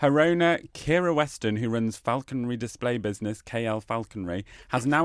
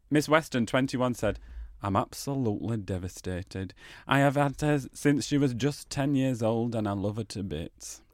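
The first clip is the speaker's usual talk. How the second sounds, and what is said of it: Put-on regional English accent. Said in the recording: “Let me do it in a wakeful accent.”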